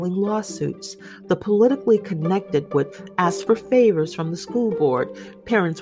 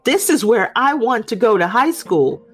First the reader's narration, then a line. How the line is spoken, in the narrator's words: Catherine was yelling